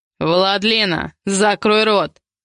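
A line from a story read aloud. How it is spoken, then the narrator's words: Growl. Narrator (Russian): рыкнул Ивар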